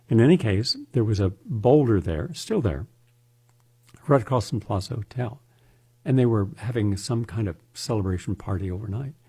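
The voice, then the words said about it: Slightly raspy voice. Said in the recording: “I was up all night dictating. I write by dictation, so I was dictating 7 hours. My voice is a little raspy this morning.”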